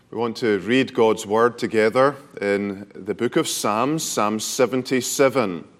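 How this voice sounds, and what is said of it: Speaks with a noticeable accent. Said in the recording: “I will go slowly to begin with while you acclimatize to my accent”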